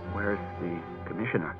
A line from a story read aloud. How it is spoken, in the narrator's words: he mumbled, hot with mortification